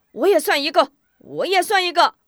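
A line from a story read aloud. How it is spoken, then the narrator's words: Impatient clamoring. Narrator (Chinese): 西胜士气…急不可耐，嚷道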